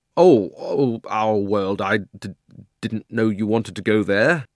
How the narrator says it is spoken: got very red in the face and stammered

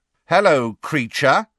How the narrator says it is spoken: said Fred very loudly

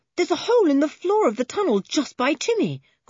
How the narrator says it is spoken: cried Julian

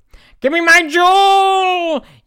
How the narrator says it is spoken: yelled Vetch after the two

